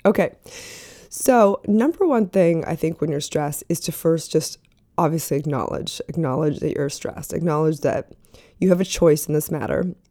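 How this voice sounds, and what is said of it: Rough, sore-throated voice. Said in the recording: “my voice sounds bad, but I don't feel as bad as my voice sounds ... My throat is not happy right now.”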